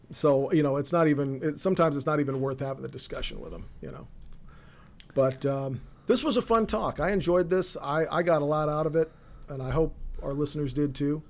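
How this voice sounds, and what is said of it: Hoarse, raspy losing voice. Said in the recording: “if I sound like I've switched from one pack a day to two packs a day, I apologize ... I'm losing my voice”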